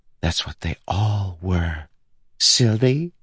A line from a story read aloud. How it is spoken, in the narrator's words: whispered